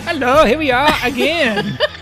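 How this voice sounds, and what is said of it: Put-on accent. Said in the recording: “What is that accent?”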